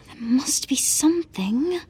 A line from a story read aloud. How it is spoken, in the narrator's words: Hermione muttered